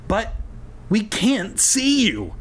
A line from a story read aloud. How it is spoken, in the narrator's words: April cried